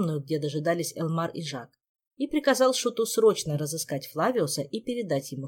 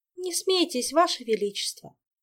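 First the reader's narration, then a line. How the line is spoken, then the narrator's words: Sighing. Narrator (Russian): вздохнула Ольга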